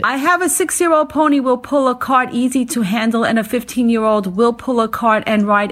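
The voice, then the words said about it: Noticeable regional accent. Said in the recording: “I just love that accent. ... You don't think you have an accent, but you do.”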